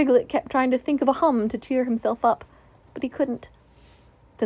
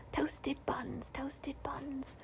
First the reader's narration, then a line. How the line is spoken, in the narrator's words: ghostly echoes whispering